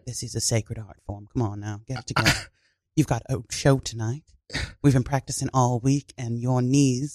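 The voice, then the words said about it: Put-on English accent. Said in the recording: “We're from Pittsburgh. Why do you have an English accent?”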